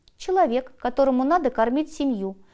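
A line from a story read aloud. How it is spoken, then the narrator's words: Calm reply. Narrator (Russian): спокойно ответил хирург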